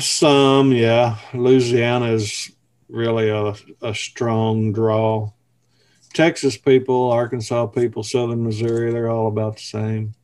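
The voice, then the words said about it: Southern American accent. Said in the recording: “you definitely have an accent. Can you tell all the Southern accents apart”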